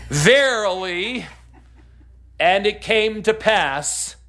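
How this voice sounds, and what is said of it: Resonant, formal intoning voice. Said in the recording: “that was me being resonant ... That's not an English accent, that's just ... being resonant.”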